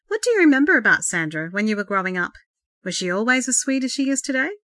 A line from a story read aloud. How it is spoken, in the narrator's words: Laurie chuckled